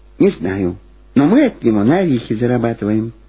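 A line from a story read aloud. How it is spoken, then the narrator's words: Quiet reply. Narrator (Russian): так же тихо ответила Люба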